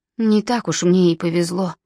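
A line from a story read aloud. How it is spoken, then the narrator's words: Sighing. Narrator (Russian): вздохнул Бакшиш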